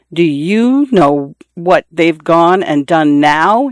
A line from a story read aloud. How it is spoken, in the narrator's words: he said